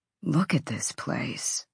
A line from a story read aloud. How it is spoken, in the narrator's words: Therion murmured